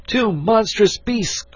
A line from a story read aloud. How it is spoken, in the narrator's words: cried he